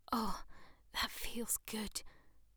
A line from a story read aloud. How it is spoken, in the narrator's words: the young girl moaned